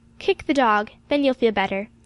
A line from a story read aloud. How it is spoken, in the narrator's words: said calmly